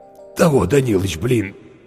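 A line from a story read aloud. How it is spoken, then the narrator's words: Hoarse voice. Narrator (Russian): сипло сказал Зверев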